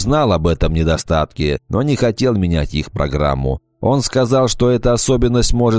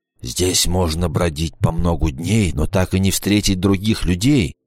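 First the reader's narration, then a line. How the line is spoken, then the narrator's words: Hoarse whisper. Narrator (Russian): прошептал он хриплым голосом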